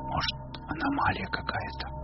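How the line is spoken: Whisper. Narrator (Russian): прошептал Костик

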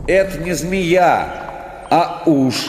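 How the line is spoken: Shout. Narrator (Russian): крикнул

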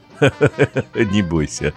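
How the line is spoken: Laughing. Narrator (Russian): Засмеялась тетя Вера

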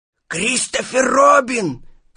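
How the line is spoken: Shouted whisper. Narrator (Russian): крикнул он шепотом

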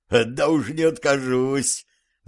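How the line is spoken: Serf laughing. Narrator (Russian): засмеялся холоп

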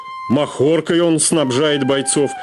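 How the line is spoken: Wounded man, frightened mumble. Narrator (Russian): испуганно пробормотал раненый

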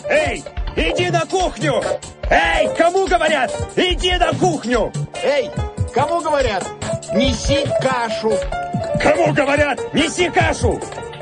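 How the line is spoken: Repeated shouting. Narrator (Russian): Ему постоянно кричали

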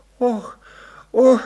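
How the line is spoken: Moaning. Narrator (Russian): застонала она

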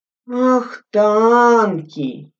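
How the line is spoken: Lazy questioning repeat. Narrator (Russian): лениво переспросил Святкин

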